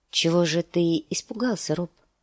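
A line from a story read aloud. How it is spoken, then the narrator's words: Soft question. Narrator (Russian): спросила она мягко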